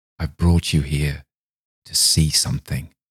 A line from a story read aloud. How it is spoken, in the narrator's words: he whispered hoarsely